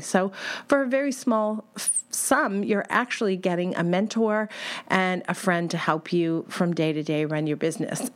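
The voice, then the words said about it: Voice affected by a cold. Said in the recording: “I have a bit of a cold, ... I'm going to try to save my voice”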